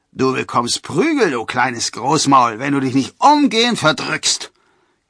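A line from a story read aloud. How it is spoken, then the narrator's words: Growled. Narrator (German): knurrte einer der Förster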